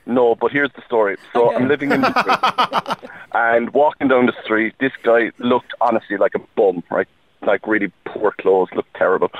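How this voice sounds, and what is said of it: Irish accent, southern Ireland. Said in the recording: “Where's that lovely accent from? ... Ireland. ... Down south? ... Yeah”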